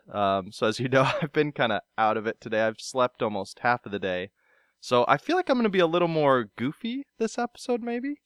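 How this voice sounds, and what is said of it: Voice with a cold. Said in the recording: “I've got a bit of a cold”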